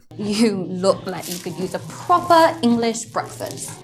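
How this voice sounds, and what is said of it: Put-on English accent. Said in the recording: “She's doing an English accent for some reason.”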